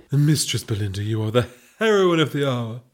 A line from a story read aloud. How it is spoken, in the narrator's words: purred the Duchess